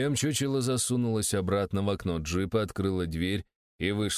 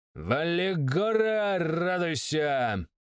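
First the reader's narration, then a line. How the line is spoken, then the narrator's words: Shouting. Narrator (Russian): крикнуло оно, ну, то бишь он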